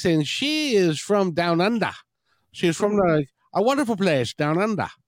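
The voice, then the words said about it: Poor put-on Australian accent, sounds Irish. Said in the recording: “my lousy attempt at an Australian accent... It didn't go very well... Sounded a bit Irish”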